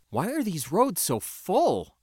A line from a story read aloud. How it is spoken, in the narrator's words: I exclaimed, perplexed